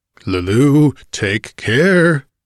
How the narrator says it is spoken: Kane exclaimed, a terrible menace in his voice

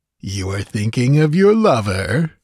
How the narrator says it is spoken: he laughed

